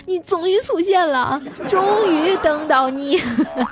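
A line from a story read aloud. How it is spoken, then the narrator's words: Tearful crying. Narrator (Chinese): 瞬间泪流满面啊，然后哭着就说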